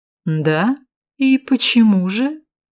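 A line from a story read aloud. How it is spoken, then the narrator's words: Snide, mocking. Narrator (Russian): ехидно произнес Валкер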